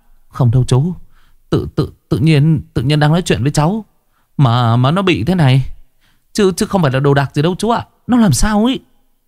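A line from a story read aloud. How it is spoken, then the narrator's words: Tearful, whimpering. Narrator (Vietnamese): Dũng tóc dài lúc này mếu máo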